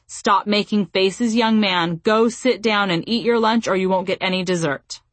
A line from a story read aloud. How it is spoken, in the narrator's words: uttered in a stern tone